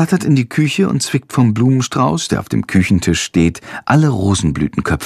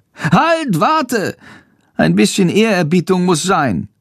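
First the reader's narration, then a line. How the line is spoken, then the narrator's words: Calling out. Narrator (German): ruft Chandor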